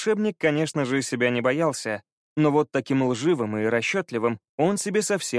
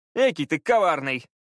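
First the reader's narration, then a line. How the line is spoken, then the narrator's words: Laughing. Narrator (Russian): засмеялся Пит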